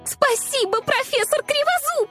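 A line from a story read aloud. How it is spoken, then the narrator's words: Shout cut short. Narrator (Russian): Закричала, но тут же осеклась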